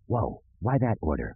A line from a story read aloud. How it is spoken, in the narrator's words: Dash whispered